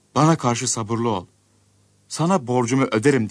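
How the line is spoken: Pleading. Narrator (Turkish): diye yalvarmış

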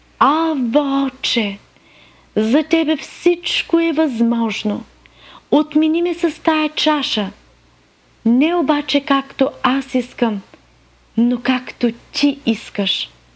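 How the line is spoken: Praying. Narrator (Bulgarian): молеше се, ако е възможно да го отмине този час, казвайки

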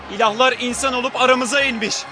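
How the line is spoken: Crying out. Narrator (Turkish): diye haykırdı

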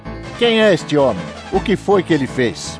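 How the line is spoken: Confused crowd shouting. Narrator (Portuguese): uns gritavam uma coisa, outros gritavam outra

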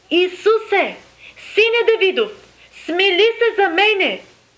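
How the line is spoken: Crying out. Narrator (Bulgarian): той извика, казвайки

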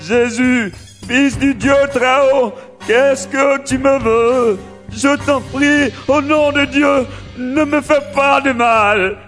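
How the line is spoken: Loud cry. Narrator (French): Il crie d'une voix forte

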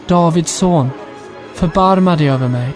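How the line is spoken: Shouting even louder. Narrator (Swedish): han ropade bara ännu mer

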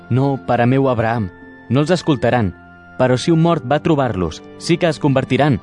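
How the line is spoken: Insistent. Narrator (Catalan): insistí encara

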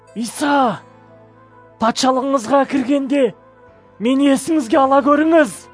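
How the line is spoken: Pleading. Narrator (Kazakh): деп өтінді

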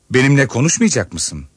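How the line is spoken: Plain. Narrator (Turkish): dedi

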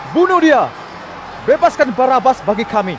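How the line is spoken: Crowd shouting. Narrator (Indonesian): semua orang berteriak

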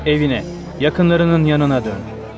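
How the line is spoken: Plain. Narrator (Turkish): dedi

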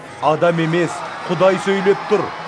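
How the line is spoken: Continuous shouting. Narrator (Kazakh): деп айғайлай берді

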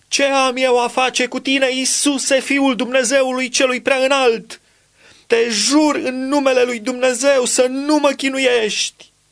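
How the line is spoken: Loud shout. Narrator (Romanian): a strigat cu glas tare

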